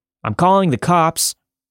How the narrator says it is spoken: I wanted to look brave, so I shouted

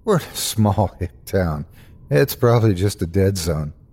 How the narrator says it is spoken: faked a laugh and replied

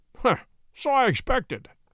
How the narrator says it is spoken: said Holmes, chuckling

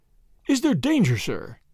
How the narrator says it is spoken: gasped Johnson

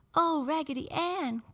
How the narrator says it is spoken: cried the French dolly

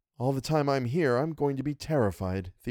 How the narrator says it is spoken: Theodora said

